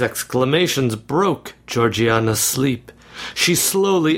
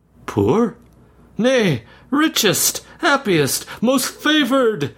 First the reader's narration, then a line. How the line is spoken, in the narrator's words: exclaimed he